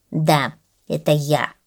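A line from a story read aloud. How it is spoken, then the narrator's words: Grumbled. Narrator (Russian): проворчала гусеница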